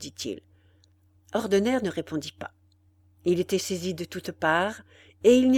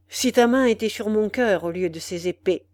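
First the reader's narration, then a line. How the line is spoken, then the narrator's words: Cold. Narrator (French): dit froidement le jeune homme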